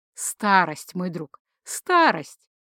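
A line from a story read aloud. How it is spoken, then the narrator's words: Mock sigh. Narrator (Russian): притворно вздохнул Джейка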